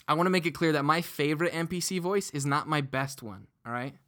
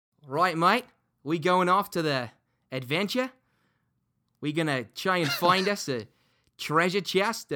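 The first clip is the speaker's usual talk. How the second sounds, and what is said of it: Bad Australian accent, question-like intonation. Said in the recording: “he was Australian ... the only way that I could pull off the Australian accent was by phrasing things as a question ... It gets terrible. I'm so bad at it”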